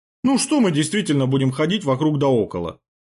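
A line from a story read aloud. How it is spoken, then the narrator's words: Chuckling. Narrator (Russian): хохотнул Трубецкой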